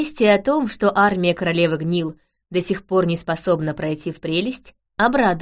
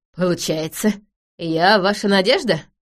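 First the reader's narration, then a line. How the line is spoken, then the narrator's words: Nervous laugh. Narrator (Russian): нервно рассмеялся Захариус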